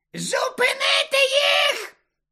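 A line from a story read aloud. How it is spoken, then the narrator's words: Shriek. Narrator (Ukrainian): заверещала вона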